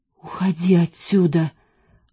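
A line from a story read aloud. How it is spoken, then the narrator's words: Half-choked voice. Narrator (Russian): полузадушенным голосом сказал он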